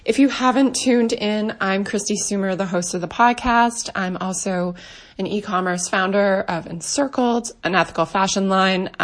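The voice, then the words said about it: Stuffed-up, strained voice. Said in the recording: “apologize for my voice ... I sound a little mix between like stuffed up and from screaming and talking for three days straight”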